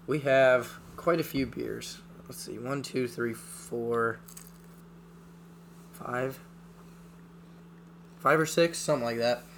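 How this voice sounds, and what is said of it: Hoarse, fading voice. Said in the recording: “I am losing my voice.”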